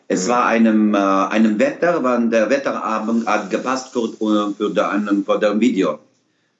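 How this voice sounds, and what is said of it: Put-on foreign accent, possibly French. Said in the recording (German): “Ist das ein französischer Akzent oder was soll das sein?”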